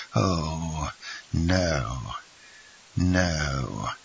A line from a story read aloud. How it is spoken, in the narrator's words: said the general, smiling faintly